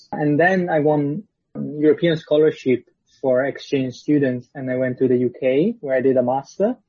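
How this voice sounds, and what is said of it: Italian accent. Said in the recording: “I'm Italian, as you probably guessed from the accent”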